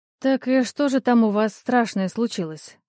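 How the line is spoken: Sleepy question. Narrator (Russian): спросила я сонным голосом

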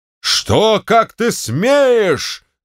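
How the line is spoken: Shouting general. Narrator (Russian): закричал генерал

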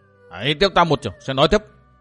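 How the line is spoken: Sudden heavy shout. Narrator (Vietnamese): Thiếu niên thanh y bỗng nặng giọng quát to

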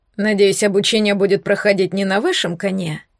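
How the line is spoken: Grumble. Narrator (Russian): проворчал Эдельвирс

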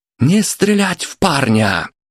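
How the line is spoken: Yelling with full force. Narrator (Russian): что было сил, заорал Дмитрий

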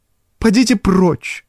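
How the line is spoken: Commanding. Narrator (Russian): Столь же властно, сколь мягко звучали ее приказания прежде

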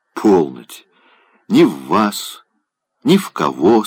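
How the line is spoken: Plain. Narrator (Russian): сказал он

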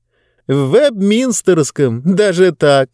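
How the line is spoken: Laughing. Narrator (Russian): продолжала смеяться Диба

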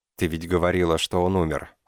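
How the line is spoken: Calm. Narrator (Russian): сказал я спокойно

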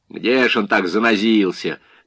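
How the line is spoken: Mocking question. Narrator (Russian): насмешливо полюбопытствовал Паршин

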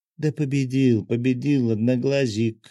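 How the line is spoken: Laughing. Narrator (Russian): рассмеялась хранительница

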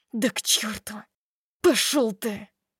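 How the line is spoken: Through gritted teeth. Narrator (Russian): Добавляет сквозь зубы

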